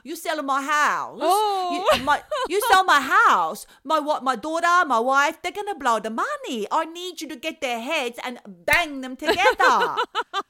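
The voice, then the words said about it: Put-on foreign accent, agitated voice. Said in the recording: “Apologies for the accent.”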